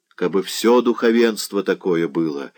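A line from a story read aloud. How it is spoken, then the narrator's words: Sighed. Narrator (Russian): вздохнул Заглоба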